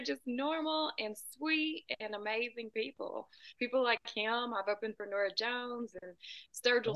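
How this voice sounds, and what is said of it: Southern US accent. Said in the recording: “that accent sounds like Nashville ... a little more south than that, about two hours south of Nashville ... Sometimes when people hear my accent, they say Texas”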